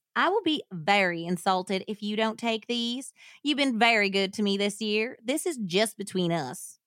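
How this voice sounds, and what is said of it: Put-on Louisiana Southern accent. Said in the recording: “You know who you sound like? ... Sookie. It's a Sookie ... accent. ... True Blood? ... Yeah, that's like a New Orleans or like Louisiana, Mississippi accent.”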